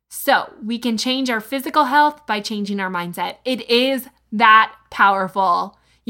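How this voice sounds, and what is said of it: Excited, energetic voice. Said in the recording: “I'm so pumped up about this series. You can probably hear it in my voice”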